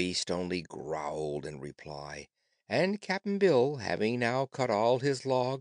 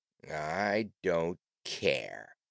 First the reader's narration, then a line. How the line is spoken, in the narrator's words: the beast replied in a surly tone